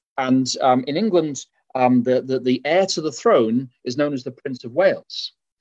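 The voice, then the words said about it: English accent. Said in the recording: “as you can tell from my accent, uh, although I live in Berrien Springs, I was raised in England.”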